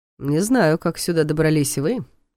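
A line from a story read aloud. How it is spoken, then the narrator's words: Snorting. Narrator (Russian): хмыкнул Долгов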